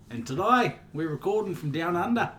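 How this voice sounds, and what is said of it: Put-on Australian accent. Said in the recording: “is that an English accent at first, like a really bad English accent at first ... This is an Australian accent.”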